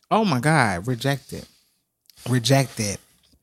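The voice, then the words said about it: Tearful, emotional voice. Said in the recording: “I said I'm not gonna cry on this camera. Why did I just start? ... Getting a little emotional.”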